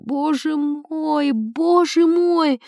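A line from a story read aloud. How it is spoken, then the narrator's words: Lady's moan. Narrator (Russian): барыня застонала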